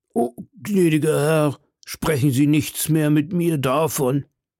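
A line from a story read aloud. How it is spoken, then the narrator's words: Pitiful, wailing voice. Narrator (German): versetzte der Wirt mit seiner kläglichsten Stimme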